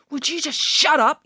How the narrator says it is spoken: yelled

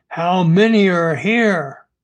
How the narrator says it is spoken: With his knife at Darryl's throat, he growled

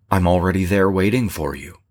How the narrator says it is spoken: she said

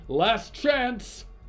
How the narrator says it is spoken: the man shouted

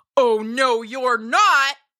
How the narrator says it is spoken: cried the troll

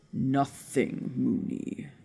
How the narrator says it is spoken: Sirius growled

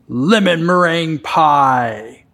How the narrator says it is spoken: bellowed out from somewhere in the restaurant

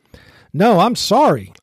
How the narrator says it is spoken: snapped

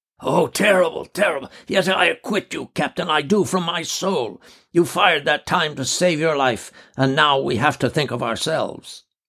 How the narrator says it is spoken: Horror the doctor said hoarsely

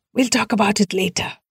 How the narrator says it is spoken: Sharad whispered loudly

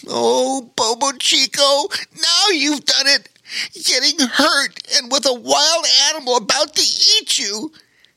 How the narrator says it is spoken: he cried to himself

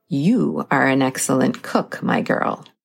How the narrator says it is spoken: said Baba Yaga

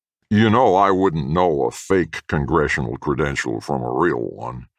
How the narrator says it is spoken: the foreman spat again

